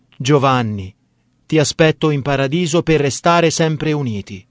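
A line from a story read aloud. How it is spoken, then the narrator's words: Mother's exclamation. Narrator (Italian): la mamma, esclamando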